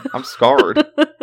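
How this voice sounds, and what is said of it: Put-on Southern US accent. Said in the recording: “with a southern accent.”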